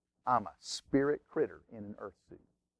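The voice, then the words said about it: Put-on Texas drawl. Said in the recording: “Good old Texas drawl.”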